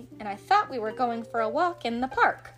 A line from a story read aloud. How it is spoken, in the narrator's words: said Michael crossly